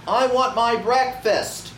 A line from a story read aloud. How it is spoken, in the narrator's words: Carrie shouted